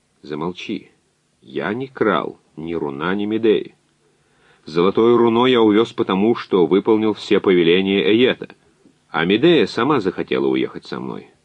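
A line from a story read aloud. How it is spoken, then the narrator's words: Calm. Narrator (Russian): Язон спокойно сказал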